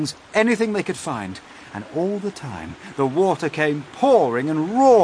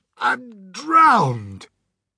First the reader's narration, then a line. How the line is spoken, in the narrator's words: gasped the old green grasshopper, spitting out water